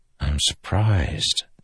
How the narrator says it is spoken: Dalinar whispered to the Spren

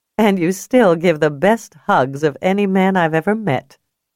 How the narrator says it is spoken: Julia said, laughing

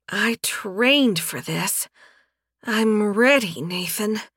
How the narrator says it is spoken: Yafela breathed out, her voice husky

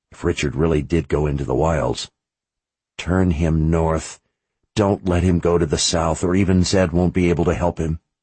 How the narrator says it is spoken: he whispered to himself

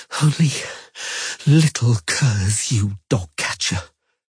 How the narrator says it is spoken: gasped the sorceress

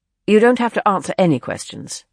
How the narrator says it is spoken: Clive said firmly

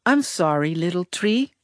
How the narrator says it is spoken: I murmured so no one could hear

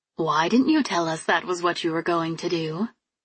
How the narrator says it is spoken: She asked quietly, holding a smile as if nothing was wrong

